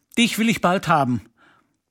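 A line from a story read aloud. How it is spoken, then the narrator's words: Called out. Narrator (German): rief er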